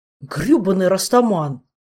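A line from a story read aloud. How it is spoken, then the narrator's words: Angry exclamation. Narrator (Russian): в сердцах воскликнул горокавладелец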